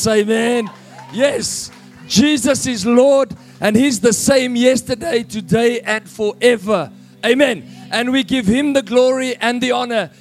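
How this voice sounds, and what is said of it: Voice worn out from shouting. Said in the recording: “Sorry for my voice. ... Just a couple of days ago, I was shouting at sinners”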